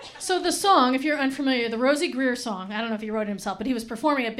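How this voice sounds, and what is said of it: Usual voice. Nothing is said of it.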